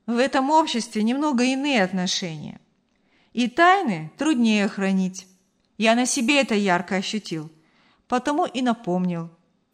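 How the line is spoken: Conciliatory tone. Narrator (Russian): примирительным тоном пояснил Артур

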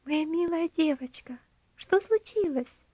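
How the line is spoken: Sympathetic voice. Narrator (Russian): услышала она участливый голос

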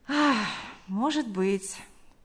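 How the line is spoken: Sighing. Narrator (Russian): вздохнув, сказал он

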